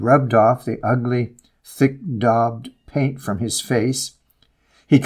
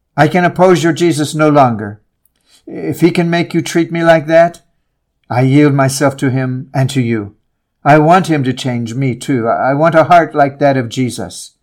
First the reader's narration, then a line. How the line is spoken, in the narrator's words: Nasi broke down and cried